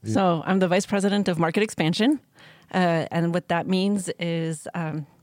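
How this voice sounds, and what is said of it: Shaky, nervous voice. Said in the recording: “Oh, my voice gets so shaky.”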